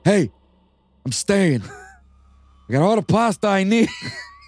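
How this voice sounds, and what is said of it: Badly done put-on accent. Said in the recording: “That's a really horrible accent.”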